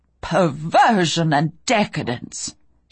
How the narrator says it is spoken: she'd snapped

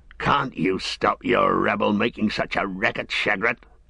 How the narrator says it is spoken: grunted the one

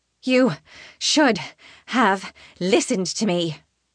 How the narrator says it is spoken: Naveen pants, still catching her breath

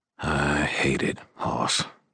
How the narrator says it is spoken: he said in a very quiet voice

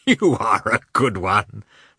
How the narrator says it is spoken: remarked Oblonsky, laughing

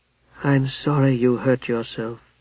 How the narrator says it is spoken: she said in a dull, lifeless voice

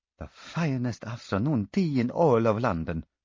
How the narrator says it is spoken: murmured Luca Lazzari

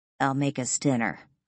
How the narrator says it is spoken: I mutter under my breath

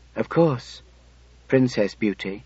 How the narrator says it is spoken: I said softly, reverently

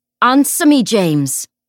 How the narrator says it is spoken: Will shouted

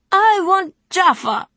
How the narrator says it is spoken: wailed Elzrin, tears running down his plump cheeks

